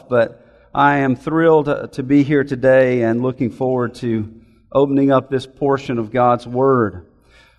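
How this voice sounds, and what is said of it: Scratchy, slightly hoarse voice. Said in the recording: “my voice is a little scratchy this morning or have a cough. I have a little throat problem going on myself”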